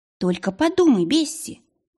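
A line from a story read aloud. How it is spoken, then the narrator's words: Exclamation. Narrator (Russian): воскликнула Маргарет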